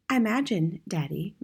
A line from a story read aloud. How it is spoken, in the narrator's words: Matilda said quietly